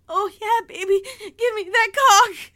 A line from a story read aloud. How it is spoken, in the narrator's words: sobbing, saying